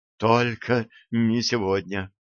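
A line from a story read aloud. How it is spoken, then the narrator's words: Interrupting, slightly trembling voice. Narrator (Russian): Она прервала его немного дрожащим голосом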